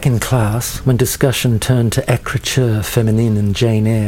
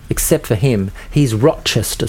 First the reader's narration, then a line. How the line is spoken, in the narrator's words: said Diane